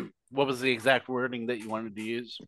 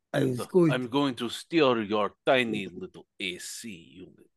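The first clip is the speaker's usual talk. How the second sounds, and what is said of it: Put-on Russian accent. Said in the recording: “some big Russian guy's ... can you please incorporate the actual accent there? ... Yeah, exactly like that.”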